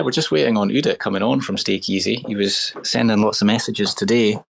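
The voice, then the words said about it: Posh East Coast Scottish accent. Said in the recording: “I'm the East Coaster. I've got the posh accent.”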